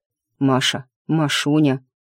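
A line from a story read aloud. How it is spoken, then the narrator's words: Hoarse voice. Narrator (Russian): хриплый голос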